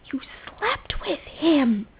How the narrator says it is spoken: John hissed to Rodney under his breath, furiously

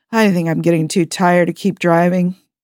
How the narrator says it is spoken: Jim said, his voice weary

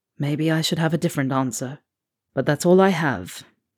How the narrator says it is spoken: His voice lowers to a breath, and he adds

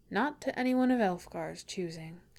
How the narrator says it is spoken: he says, keeping his tone light

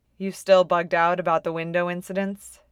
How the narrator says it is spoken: she asks

